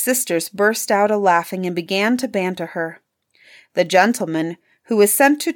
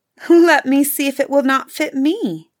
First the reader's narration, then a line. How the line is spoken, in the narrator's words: Cinderella said, laughing